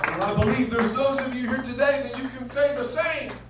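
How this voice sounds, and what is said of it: Loud, raised, almost yelling voice. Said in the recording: “raising my voice, if it sounds like I'm yelling.”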